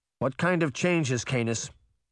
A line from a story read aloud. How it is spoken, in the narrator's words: Bunny said sternly